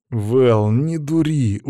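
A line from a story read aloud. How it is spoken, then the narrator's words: Tired reply. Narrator (Russian): устало отозвался он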